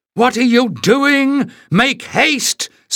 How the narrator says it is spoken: screamed Pen from the dimness beyond the weed

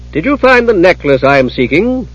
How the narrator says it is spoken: She asked loudly, loud enough to be heard upstairs

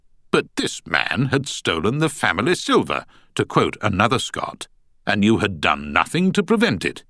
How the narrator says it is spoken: said Pearson, his voice rising with every word

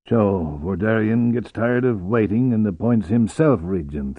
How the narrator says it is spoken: Vortala murmured

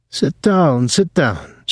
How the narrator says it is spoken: said excitedly

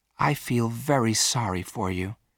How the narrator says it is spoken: said Virginia quietly

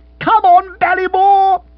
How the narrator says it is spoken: shouted Bill

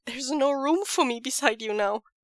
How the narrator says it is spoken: he cries

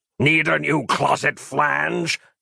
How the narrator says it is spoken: cackled the dream demon

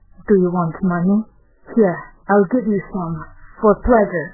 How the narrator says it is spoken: He murmured

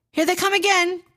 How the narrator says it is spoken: cried Inaji

